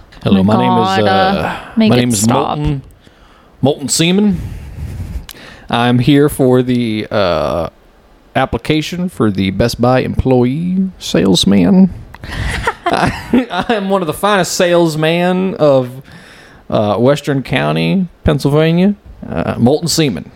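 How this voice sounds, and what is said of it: Put-on Texas-style accent. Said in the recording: “that's the accent for Pennsylvania? Western Pennsylvania? ... the voice of my house was Texas to me”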